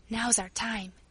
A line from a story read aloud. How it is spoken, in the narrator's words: she said in a low voice